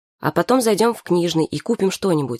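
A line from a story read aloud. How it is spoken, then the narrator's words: Plain. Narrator (Russian): сказала Саша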